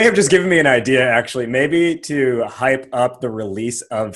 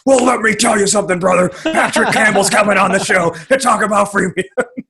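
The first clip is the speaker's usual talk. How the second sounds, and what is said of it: Wrestler-style impression of another person's voice. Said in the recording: “I will just do my like Hulk Hogan or my Stone Cold impression”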